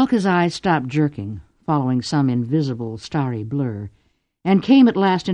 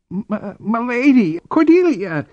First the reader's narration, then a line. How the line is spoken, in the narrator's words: croaked